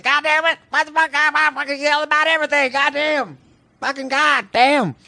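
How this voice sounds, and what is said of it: Yelling imitation of another person. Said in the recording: “That's my impression of him.”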